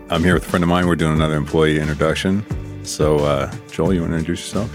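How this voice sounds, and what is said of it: Unusually low, deep morning voice. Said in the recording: “it's early morning. My voice is even lower than it usually is”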